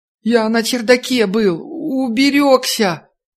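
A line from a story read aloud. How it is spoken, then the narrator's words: Sobbing, wailing boy. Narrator (Russian): Мальчишка всхлипнул и снова заревел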